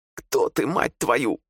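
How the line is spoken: Squeak. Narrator (Russian): пискнул он

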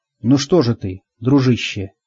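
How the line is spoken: Soft gentle voice. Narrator (Russian): мягко проговорил я

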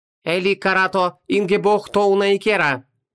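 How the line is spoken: Chanting. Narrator (Russian): нараспев читала Шамара

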